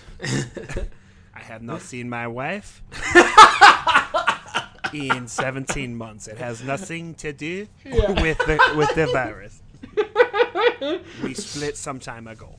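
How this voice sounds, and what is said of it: Inconsistent put-on foreign accent. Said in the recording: “My accent broke pretty hard. ... the word virus was good ... Rest of it was not consistent. ... you had a couple of words in there that were good.”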